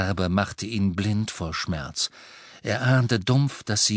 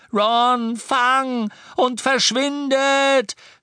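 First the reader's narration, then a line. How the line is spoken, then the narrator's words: Shout. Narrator (German): schrie er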